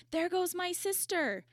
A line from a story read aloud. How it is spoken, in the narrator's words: one of them cried